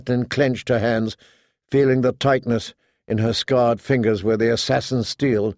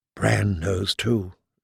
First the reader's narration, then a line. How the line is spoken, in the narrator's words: she whispered